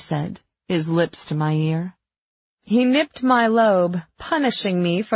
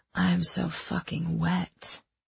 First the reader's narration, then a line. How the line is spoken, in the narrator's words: I whispered back